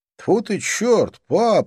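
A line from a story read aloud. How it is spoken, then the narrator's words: Startled exclamation. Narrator (Russian): воскликнул он, увидев мое лицо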